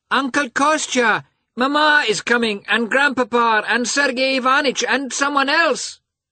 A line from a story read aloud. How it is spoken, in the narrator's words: cried, clambering into the trap